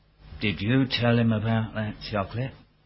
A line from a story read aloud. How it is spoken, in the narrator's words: Breathed a word